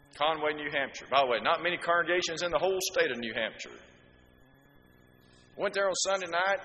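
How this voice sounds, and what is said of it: Alabama accent. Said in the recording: “with this accent in New England, they knew I wasn't from around there ... "Where are you from?" I said, "Alabama."”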